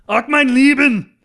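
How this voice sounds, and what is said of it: Screamed terrible fake German accent. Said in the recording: “With a terrible German accent... Why do I back off the mic when I do that? Because I'm screaming”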